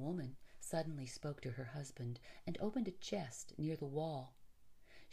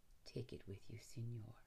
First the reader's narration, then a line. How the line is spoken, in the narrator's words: the man said softly